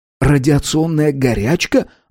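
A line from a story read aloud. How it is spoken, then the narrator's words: Simultaneous exclamation. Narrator (Russian): одновременно воскликнули Пола и Авардан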